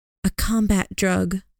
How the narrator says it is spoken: Lillian whispered

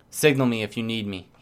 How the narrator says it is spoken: he answered

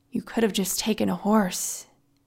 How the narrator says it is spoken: muttered

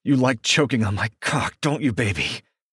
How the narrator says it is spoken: Ronan grunts

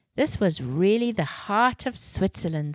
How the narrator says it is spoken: sighed Mom

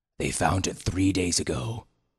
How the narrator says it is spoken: told grimly

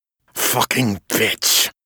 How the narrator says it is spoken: Ezekiel growled

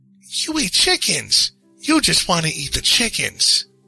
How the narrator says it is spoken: she chirped, suddenly angry

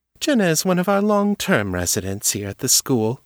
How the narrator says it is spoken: Anna said, her voice warm with approval

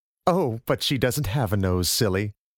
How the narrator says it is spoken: Her mother would laugh and say

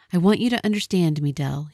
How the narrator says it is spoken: he said

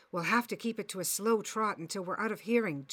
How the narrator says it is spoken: Chad murmured

